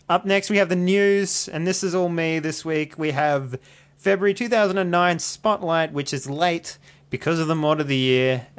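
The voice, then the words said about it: Australian accent. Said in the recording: “my Australian accent ... my accent is sweet”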